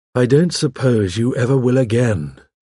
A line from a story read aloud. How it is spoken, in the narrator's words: I said, sinking down wearily